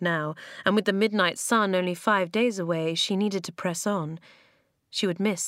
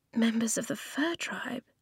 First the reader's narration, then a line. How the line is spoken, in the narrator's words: she whispered